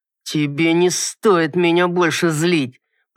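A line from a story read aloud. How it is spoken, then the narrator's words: Hissed through clenched teeth. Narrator (Russian): процедил сквозь зубы мужчина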